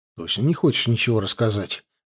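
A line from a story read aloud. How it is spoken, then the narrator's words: Gentle question. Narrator (Russian): мягко спросил я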